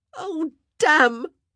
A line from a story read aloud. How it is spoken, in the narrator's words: she wailed, not caring if anyone heard her